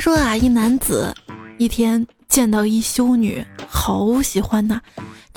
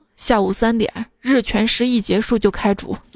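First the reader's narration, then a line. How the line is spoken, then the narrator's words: Cold. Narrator (Chinese): 首领冷冷地说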